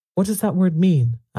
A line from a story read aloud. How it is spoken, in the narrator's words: asked uneasily